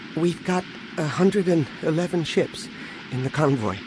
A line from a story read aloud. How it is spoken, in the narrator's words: Anakin said ... nervously